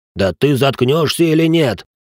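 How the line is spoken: Roar. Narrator (Russian): взревел инвалид

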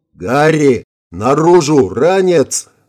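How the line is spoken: Yell. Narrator (Russian): заорал Вик

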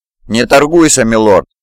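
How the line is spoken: Stern. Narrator (Russian): строго заметил Ханакура

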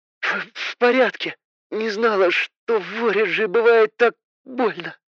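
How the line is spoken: Barely audible girl. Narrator (Russian): еле слышно проговорила девушка

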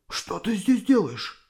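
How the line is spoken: Confused whisper. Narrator (Russian): спросил отец шепотом, не понимая еще, что происходит

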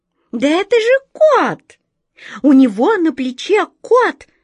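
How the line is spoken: Indignant squeak. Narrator (Russian): возмущенно запищала она

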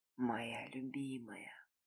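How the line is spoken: Barely audible whisper. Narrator (Russian): прошептал едва слышно в тишину комнаты

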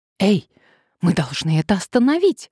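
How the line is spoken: Exclaiming. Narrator (Russian): воскликнула Надежда

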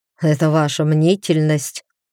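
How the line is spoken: Healer snorting. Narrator (Russian): фыркнул целитель

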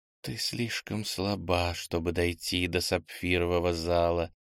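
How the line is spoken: Quiet whisper. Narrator (Russian): услышала тихий шепот Ира

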